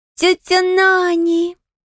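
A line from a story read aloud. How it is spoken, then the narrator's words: Joyful cry, little girl. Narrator (Russian): радостно вскрикнула милая девчушка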